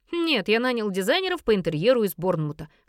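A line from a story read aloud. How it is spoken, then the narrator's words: Snort. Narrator (Russian): хмыкнул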